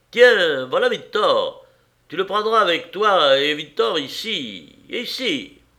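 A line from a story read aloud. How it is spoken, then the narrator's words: Booming call. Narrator (French): lancé d'une voix de stentor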